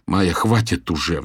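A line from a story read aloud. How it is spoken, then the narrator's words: Pleading. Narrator (Russian): взмолился я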